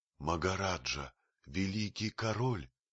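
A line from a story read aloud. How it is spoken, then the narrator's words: Hoarse whisper. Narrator (Russian): хриплым шепотом произнес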